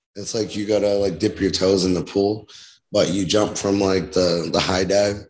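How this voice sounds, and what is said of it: Raspy, strained voice. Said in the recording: “Kind of losing my voice from yesterday ... You have a pretty raspy voice anyway ... I feel like I'm losing my voice”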